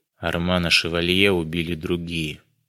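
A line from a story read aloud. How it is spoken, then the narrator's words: Quiet remark. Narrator (Russian): тихо заметил Дронго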